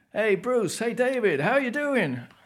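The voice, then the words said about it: Poor Jay Leno impression. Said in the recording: “It's a terrible accent. It's not Welsh. ... it was Jay Leno”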